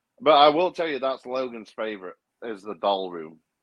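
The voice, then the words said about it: Sarcastic tone. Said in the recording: “I'm saying that sarcastically”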